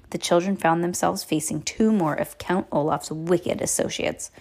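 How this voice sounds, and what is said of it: Usual voice. Nothing is said of it.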